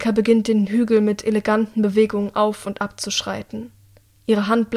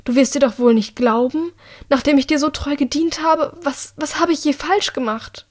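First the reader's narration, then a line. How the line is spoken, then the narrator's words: Pleading. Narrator (German): Sie fleht Annika tatsächlich an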